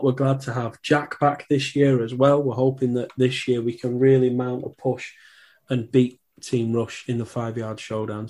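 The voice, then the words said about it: Strained, worn-out voice. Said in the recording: “I'm off the COVID list. As you might be able to tell, my voice has just about made it through this episode ... rest my voice for a little while”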